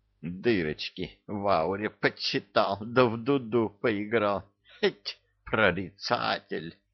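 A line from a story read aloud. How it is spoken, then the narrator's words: Contemptuous, through gritted teeth. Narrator (Russian): презрительно процедил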